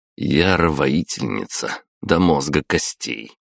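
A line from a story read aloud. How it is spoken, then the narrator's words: Wry snort. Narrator (Russian): хмыкнул я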